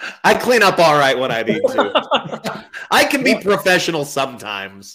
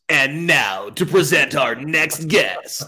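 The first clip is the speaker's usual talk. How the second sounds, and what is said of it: Polished announcer voiceover voice. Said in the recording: “do the voiceover voice ... I don't want your conversational voice. I want your voiceover voice.”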